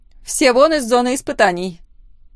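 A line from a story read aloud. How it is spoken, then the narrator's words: Loud command. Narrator (Russian): громко приказала Лора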